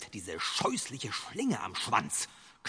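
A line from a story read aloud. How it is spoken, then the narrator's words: Growling wolf. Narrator (German): knurrte der Wolf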